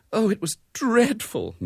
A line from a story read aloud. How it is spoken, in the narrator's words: moaned Mrs